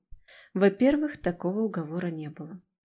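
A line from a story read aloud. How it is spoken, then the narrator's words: Soft reminder. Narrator (Russian): напомнила мягко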